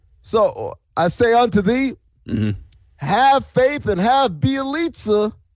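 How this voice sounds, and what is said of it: Lilting, soaring preacher voice. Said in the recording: “it's my preacher voice ... lilting ... It's like it's almost like a song. It's soaring ... That's the preacher voice”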